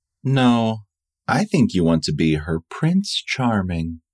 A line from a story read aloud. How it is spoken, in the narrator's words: Frederick says, almost dreamily